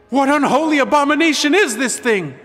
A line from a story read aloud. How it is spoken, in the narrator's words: one of the Zora yelled